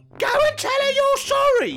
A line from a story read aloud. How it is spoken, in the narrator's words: she shouted